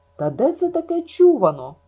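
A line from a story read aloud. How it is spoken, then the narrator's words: Bewildered exclamation. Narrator (Ukrainian): вигукнула спантеличена Маріла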